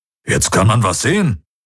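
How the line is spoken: Grumbling. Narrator (German): brummte Hubert

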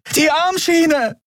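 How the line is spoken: Screamed, nearly tearing vocal cords. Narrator (German): schrie Andriel, dass es ihr fast die Stimmbänder zerriss

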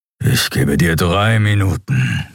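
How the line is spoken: Growled. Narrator (German): knurrte Keru

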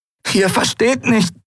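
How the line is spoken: Croaking. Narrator (German): krächzte sie

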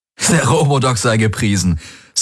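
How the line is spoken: Laughing. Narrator (German): sagte er lachend

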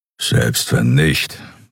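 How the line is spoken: Grumbled. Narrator (German): brummte er

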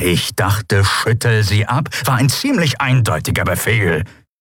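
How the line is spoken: Growled. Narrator (German): knurrte Charsu

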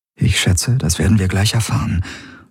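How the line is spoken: Murmur. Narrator (German): murmelte sie

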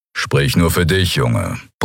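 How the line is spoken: Grumbled. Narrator (German): brummte Kero

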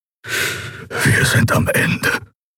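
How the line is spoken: Whisper. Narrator (German): flüsterte Keru

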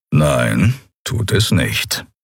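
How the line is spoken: Calm reply. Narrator (German): erwiderte Keru ruhig

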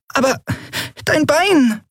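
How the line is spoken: Squeaky. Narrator (German): piepste Nelen

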